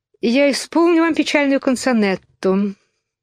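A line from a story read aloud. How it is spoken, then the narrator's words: Sighing mouse. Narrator (Russian): вздохнув, сказала мышь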